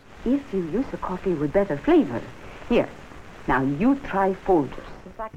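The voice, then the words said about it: Hokey accented commercial character voice. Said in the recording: “she would say in a hokey accent”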